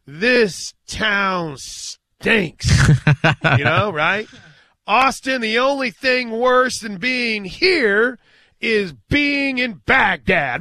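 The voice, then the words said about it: Wrestling bad-guy character voice. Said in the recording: “my best bad guy impersonation”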